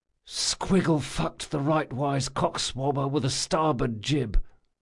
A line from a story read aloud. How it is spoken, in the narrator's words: he whispered to himself